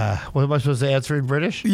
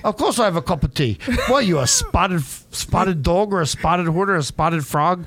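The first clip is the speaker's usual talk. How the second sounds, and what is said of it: Put-on British accent, fading halfway. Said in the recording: “British accent, mate. ... halfway through, you just gave up on the accent.”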